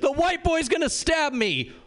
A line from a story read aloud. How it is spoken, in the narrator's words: the drunk girl screams